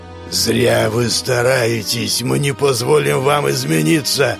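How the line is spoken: In an unnatural voice. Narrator (Russian): произнес Самуил не своим голосом

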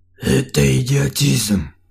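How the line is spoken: Grumbling again. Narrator (Russian): очередной раз проворчал Артем

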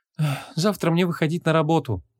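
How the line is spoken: Sad. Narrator (Russian): грустно произнесла Ванесса

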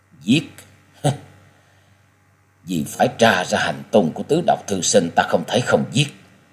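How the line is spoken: Sighing mutter. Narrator (Vietnamese): Quyết Ma Thiên Tôn cất lên tiếng thở dài lẩm bẩm

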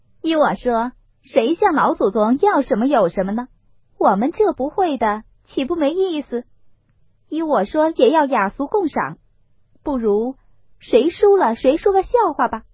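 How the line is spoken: Laughing. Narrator (Chinese): 凤姐儿笑道

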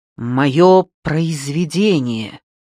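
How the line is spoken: Solemn announcement. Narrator (Russian): торжественно объявил он

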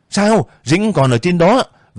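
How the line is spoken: Alarmed shout. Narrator (Vietnamese): Việt hét lên

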